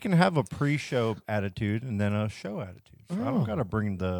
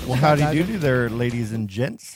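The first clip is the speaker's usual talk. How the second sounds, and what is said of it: Overly polite customer service voice. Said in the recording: “customer service voice”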